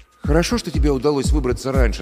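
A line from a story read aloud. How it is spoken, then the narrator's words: Plain. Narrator (Russian): сказал я маме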